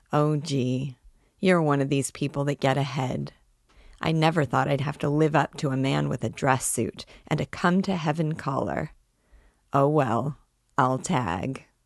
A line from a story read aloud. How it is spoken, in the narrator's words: she sighed